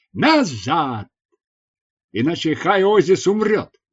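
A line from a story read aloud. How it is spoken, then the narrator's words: Loud shout. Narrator (Russian): я громко крикнул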